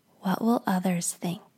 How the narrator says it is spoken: perfectionism whispers to you

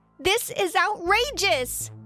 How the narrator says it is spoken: I yelled out

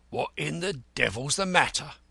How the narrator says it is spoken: growled

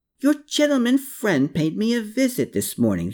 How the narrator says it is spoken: he cried out

